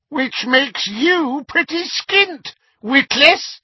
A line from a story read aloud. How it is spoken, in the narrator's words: said a cackling voice